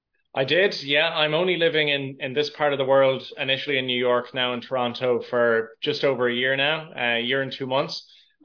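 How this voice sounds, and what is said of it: Mild Irish accent. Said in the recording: “Love that Irish accent, my friend. ... Although it's a little watered down a little bit. ... It's not as strong as some people I talked to”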